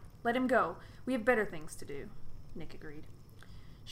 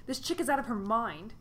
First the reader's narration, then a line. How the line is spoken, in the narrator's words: screeched Chris from below her arms